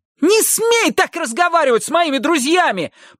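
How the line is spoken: Shrieking. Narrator (Russian): провизжал Хилли

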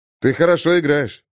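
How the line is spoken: Forced encouraging tone. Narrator (Russian): подбодрил я ее, но мне совсем не было весело

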